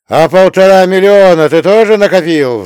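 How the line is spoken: Roar. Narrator (Russian): взревел товарищ Медунов

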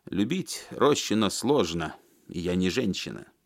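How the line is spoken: Angry old man. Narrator (Russian): сердито сказал старый тренер

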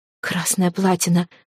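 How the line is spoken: Young woman whispering. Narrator (Russian): прошептала девушка

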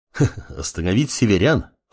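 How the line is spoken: Chuckling. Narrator (Russian): хохотнул глава клана Дух реки Рё

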